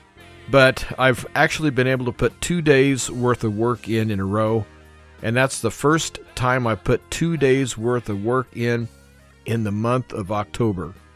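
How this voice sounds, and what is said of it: Weak voice. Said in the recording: “My voice is still a little weak”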